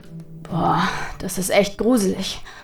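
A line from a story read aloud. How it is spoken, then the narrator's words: Murmuring. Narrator (German): murmelte Nathaniel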